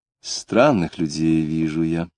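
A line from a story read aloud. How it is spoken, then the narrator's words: Sighing. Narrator (Russian): сказала она, вздохнув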